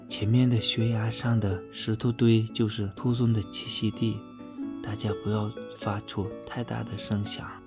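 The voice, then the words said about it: Lowered, hushed voice. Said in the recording (Chinese): “他压低了声音说”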